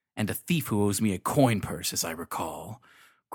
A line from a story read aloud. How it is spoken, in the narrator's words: growled Dugdame